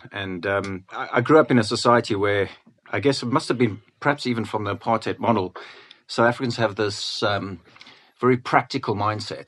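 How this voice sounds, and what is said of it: South African accent. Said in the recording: “I guess you can tell from my accent that I wasn't born in the UK. I was born in Cape Town.”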